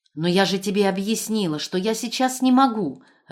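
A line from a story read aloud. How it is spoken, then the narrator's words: Irritated shout into phone. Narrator (Russian): раздраженно крикнула в трубку Вера Тимофеевна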